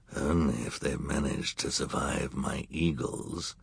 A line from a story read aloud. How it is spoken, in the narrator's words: Count Olaf said with a growl